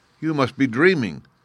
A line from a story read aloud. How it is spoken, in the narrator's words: exclaimed the Sultan